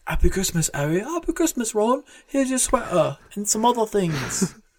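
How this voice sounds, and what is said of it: Bad British accent. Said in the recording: “It's my bad British accent.”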